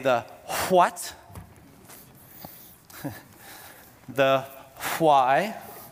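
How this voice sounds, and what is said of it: Thick American accent on W's. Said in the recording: “our lead pastor has a very thick American accent, and that's how he says his W's”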